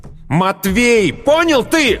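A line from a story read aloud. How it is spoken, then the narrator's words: Shouted with hatred. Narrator (Russian): выкрикнул с ненавистью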